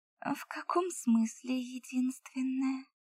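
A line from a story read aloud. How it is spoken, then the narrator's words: Purred. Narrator (Russian): промурлыкала я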